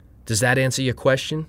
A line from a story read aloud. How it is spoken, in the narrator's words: she said